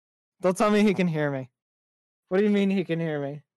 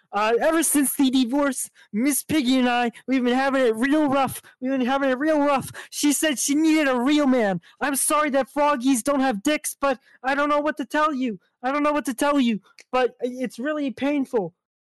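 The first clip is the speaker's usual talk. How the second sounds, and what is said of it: Kermit the Frog character voice. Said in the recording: “I can do a Kermit the Frog impression. He doesn't know that I can do a Kermit voice”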